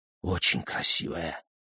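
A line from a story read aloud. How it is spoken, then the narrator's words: Whisper. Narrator (Russian): прошептала она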